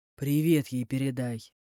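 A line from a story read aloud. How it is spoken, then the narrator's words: Gloomy suggestion. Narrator (Russian): Мрачно предложил мужчина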